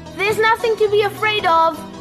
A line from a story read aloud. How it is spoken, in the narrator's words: called out